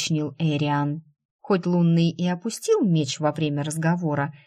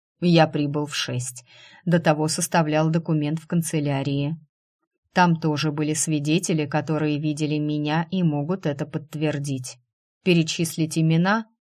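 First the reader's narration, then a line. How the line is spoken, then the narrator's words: Calm, confident, detached. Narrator (Russian): Голос Астора звучал спокойно, уверенно, отстраненно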